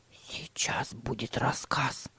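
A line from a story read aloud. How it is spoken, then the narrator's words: Whispering. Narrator (Russian): прошептал Тима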